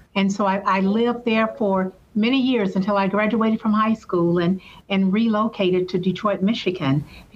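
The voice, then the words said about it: Southern US accent. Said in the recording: “everyone can hear that I have that Southern accent... I'm a Southern girl, born and raised in Selma, Alabama”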